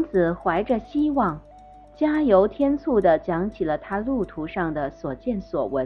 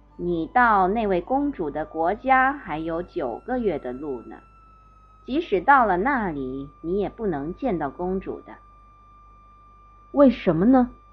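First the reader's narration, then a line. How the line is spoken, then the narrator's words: Plain question. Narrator (Chinese): 王子问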